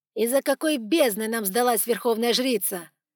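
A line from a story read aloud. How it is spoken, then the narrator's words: Snarling. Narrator (Russian): рыкнул Лукас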